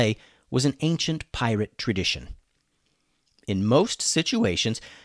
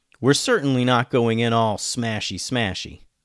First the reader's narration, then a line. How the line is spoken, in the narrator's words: said Alex